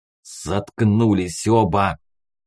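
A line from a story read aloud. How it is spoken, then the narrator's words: Angry hiss. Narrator (Russian): зло прошипел Кир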